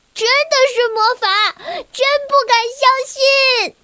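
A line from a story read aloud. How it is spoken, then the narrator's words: Excited shouting. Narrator (Chinese): 小薇激动的大叫着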